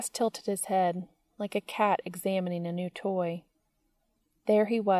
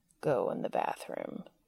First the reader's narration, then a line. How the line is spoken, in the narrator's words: said finally, lowering his voice further so it rumbled like faraway thunder